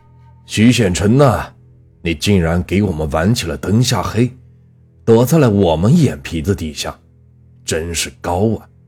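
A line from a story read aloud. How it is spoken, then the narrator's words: Loud. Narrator (Chinese): 大声道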